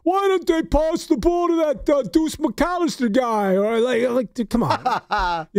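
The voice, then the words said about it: Imitated clueless casual sports fan. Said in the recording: “great impression.”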